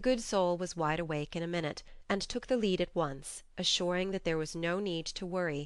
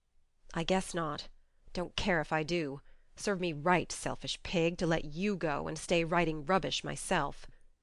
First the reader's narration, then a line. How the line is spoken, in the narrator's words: muttered Jo